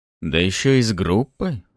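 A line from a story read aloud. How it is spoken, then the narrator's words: Thoughtful mumble. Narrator (Russian): задумчиво пробормотал Федор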